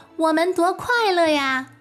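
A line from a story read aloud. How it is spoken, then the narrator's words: Children shouting joyfully. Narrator (Chinese): 孩子们相互高声喊着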